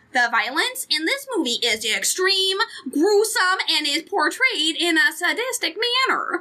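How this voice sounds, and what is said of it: Put-on Minnesota accent. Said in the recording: “I'm going to read this in the Minnesota accent.”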